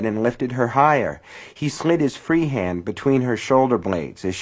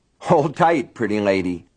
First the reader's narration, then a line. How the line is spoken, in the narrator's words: he said, and he was laughing